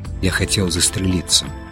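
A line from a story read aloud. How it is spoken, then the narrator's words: Quiet, after a pause. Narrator (Russian): тихо сказал художник, помолчав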